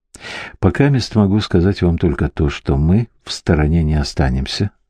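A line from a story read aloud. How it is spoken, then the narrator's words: Plain. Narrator (Russian): сказал он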